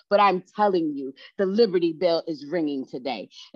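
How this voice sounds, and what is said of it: Excited, energetic delivery. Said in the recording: “I sound a little excited”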